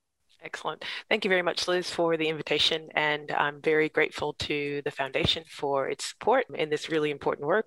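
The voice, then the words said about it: American accent. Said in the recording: “as you can tell by my accent, I'm originally from the United States”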